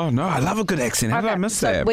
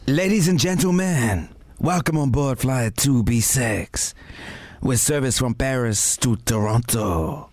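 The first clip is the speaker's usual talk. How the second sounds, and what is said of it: Put-on American accent. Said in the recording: “do your best American accent”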